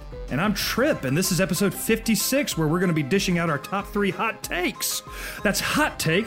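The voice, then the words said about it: Excited, breathless rushed delivery. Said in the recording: “I ran out of breath. I'm so excited”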